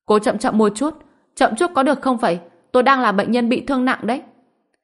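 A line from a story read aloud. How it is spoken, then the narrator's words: Pained shout. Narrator (Vietnamese): Dương Đông suýt xòa, đau đớn hét lên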